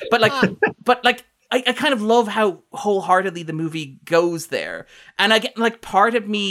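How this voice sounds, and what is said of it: Usual voice. Nothing is said of it.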